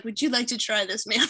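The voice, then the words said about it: Impression of a sushi restaurant server. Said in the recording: “do an impression ... of the server at the sushi restaurant ... That's not how he sounded.”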